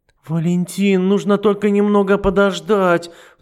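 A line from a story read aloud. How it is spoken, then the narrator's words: Pleading. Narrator (Russian): взмолилась Матильда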